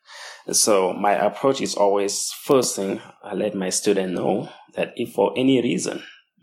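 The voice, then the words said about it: Speaks English with an accent. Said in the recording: “I have an accent ... I do have an accent ... my student may struggle to understand something due to my accent”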